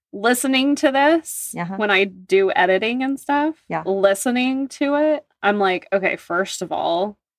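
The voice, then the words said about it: Very nasal, stuffed-up voice. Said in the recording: “my voice is the most nasal voice because my nose is always stopped up from Oklahoma allergies. Always.”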